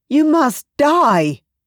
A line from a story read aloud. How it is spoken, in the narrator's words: cried